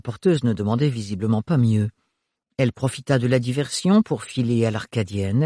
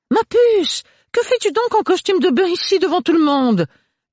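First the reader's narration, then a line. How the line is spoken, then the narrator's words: Exclaimed. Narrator (French): s'exclama Agathe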